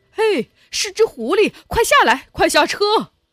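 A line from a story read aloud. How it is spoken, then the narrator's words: Excited shout. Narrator (Chinese): 其中一个商贩喊了起来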